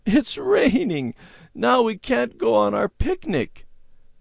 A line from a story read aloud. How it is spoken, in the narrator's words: she sobbed